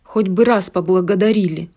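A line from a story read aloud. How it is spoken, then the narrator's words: Grumbling under breath. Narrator (Russian): проворчал себе под нос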